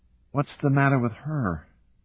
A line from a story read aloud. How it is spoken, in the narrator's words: Julia said sleepily